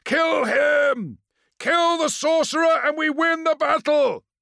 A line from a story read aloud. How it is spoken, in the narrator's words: Phostos bellowed